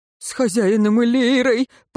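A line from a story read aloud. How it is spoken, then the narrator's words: Pained moan. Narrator (Russian): простонал смерть, сжимая рану на ноге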